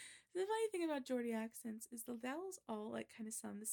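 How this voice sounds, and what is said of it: Usual voice. Nothing is said of it.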